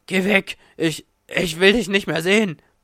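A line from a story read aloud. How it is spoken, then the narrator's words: Gasping. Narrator (German): keuchte er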